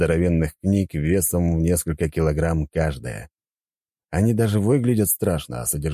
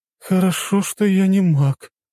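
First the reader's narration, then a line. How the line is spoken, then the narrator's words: Relieved exhale, young woman. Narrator (Russian): девушка облегченно выдохнула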